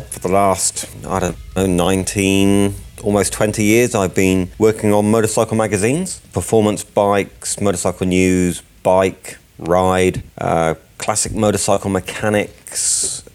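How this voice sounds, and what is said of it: British accent. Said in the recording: “you've obviously got a British accent ... I'm from the UK originally, as you can probably tell.”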